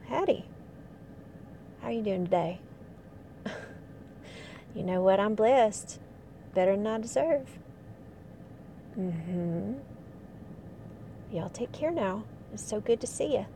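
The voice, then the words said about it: Put-on regional accent. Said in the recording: “people respond better when you put on that accent”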